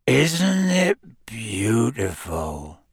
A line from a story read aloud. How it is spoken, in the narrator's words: said Hagrid softly